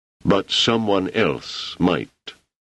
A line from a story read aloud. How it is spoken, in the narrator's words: more slowly